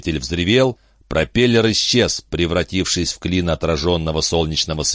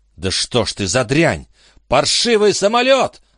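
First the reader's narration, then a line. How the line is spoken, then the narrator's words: Shouting. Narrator (Russian): закричал он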